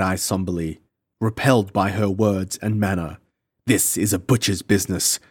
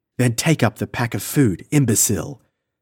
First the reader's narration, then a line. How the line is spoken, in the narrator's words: she said sharply